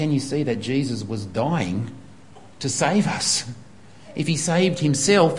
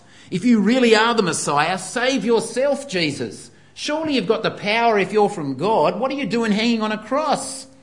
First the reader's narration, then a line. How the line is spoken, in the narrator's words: The people mocked